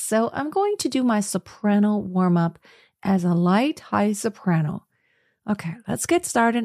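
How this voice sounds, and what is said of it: Tired, phlegmy unwarmed voice. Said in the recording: “As you can already hear in my voice, I intentionally have not warmed up ... a very tired voice ... Very phlegmy.”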